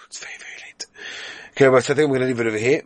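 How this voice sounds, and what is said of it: Tired, worn voice. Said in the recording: “My voice is taking a little bit of a toll these days.”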